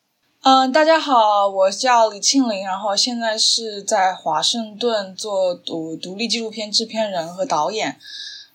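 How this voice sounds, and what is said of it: Changsha-accented Mandarin. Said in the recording (Chinese): “我是湖南人，所以我讲话有可能有长沙的那种塑料普通话的口音”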